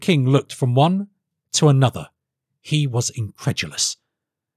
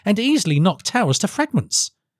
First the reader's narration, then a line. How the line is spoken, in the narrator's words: said Felix eagerly